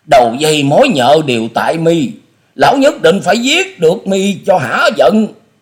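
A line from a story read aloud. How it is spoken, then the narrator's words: Murderous loud shout. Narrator (Vietnamese): Tư Đồ Hạnh ánh mắt bắn ngời sát khí rồi hét to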